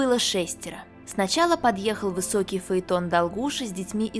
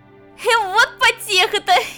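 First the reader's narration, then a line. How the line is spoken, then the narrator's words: Laughing shout. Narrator (Russian): Весело смеясь, еще на пороге кричала Тарочка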